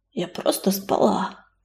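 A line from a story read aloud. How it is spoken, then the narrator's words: Hoarse answer. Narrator (Russian): хрипло ответила Листочка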